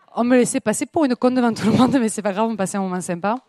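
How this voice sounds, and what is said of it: Southern French accent. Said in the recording (French): “cet accent ne vient pas de Grenoble ... j'ai l'accent du Sud”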